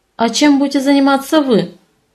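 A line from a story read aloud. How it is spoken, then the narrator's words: Ironic snort, man. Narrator (Russian): Иронично хмыкнул мужчина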